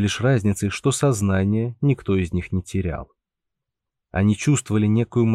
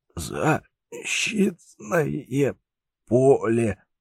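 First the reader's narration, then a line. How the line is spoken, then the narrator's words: Strained, numb-lipped. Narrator (Russian): еле выдавил из себя профессор онемевшими губами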